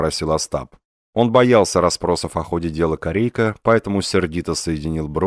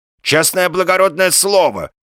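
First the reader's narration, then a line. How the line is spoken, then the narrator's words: Exclaiming. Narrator (Russian): воскликнул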